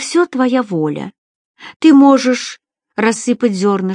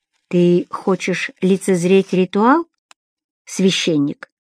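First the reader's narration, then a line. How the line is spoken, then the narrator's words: Flat sexless voice. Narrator (Russian): спрашивал оракул бесцветным и бесполым голосом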